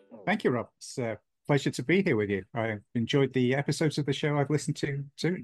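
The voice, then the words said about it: Texas accent. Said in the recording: “I can hear that Texas accent coming out of you right now.”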